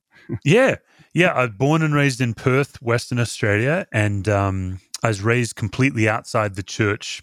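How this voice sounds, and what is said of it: Australian accent. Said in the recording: “they figured out you've got an accent. So you're from down under.”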